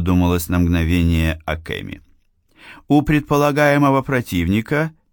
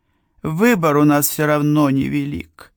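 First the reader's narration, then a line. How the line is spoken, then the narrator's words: Sigh. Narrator (Russian): вздохнула она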